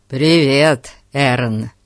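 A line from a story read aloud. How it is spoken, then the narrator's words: Greeting. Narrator (Russian): приветствовал гостя Фати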